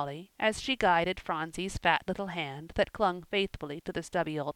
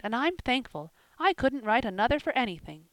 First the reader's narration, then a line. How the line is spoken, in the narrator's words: she cried